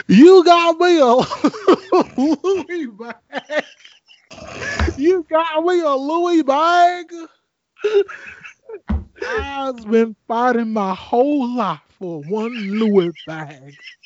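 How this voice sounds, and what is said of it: Imitates another person's voice. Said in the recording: “I hear your Jennifer Hudson impersonation”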